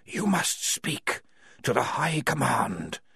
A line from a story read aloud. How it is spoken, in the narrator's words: whispered the walls